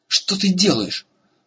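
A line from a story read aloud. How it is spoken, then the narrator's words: Yelling while struggling. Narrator (Russian): завопил Эрагон, тщетно пытаясь вырваться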